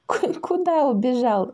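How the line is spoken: Laughing girl. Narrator (Russian): засмеялась девочка

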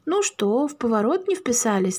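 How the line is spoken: Gentle question. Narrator (Russian): ласково поинтересовался инспектор

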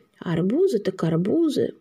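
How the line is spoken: Muttered. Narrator (Russian): пробормотал Побежалов

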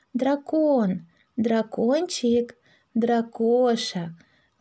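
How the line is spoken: Gentle call. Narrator (Russian): ласково позвала Маша

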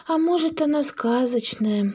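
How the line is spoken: Sighing. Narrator (Russian): вздохнула Маша

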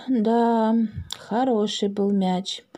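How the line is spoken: Sighing. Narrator (Russian): вздохнул Макс

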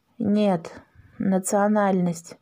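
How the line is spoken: Gloomy. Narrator (Russian): мрачно ответил папа

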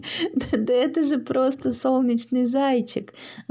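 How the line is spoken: Laughing. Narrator (Russian): засмеялась Маша

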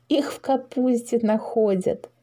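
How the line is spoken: Giggling. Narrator (Russian): хихикнула Маша

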